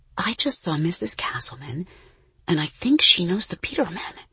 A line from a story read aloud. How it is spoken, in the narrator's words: Issa whispered